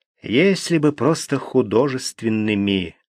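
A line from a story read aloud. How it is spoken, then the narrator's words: Sigh. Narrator (Russian): вздохнул Гуров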